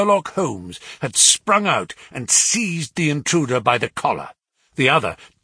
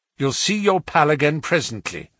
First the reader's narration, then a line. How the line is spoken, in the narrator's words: said Jones